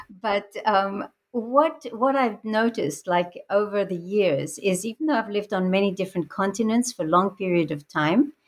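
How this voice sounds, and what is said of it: Strange mixed international accent. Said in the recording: “I have a very mixed international background, and I think that's reflected in my sort of strange accent.”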